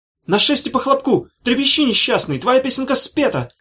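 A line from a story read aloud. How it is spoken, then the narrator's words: Shouted. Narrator (Russian): крикнул Корнелий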